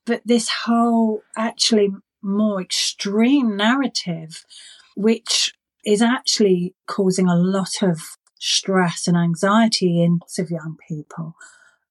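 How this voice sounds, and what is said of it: London English accent. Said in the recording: “now I've got a London accent”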